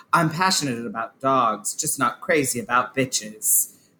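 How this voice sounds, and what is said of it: Put-on British accent. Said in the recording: “I can't do the British accent. I'm not going to do it. ... That's as close. That's about a Dorit British accent that I delivered right there.”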